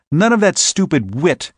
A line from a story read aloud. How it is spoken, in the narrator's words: he snapped